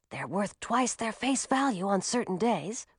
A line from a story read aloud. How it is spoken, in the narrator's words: whispered Francis